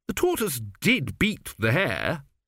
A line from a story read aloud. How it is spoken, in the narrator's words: said Zeno, sulkily